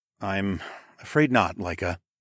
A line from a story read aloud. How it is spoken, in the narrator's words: I sighed